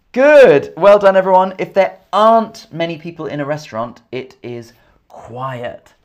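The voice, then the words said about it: English accent. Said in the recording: “My accent is English. I'm from England. So I have an English accent.”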